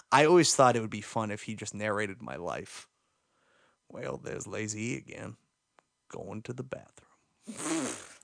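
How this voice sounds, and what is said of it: Morgan Freeman impression, narrator voice. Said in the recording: “I think I could do a Morgan Freeman accent. All you have to do is talk like this.”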